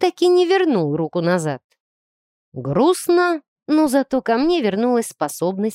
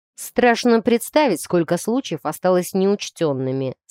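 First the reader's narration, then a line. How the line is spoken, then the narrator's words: Plain. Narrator (Russian): сказал Дасти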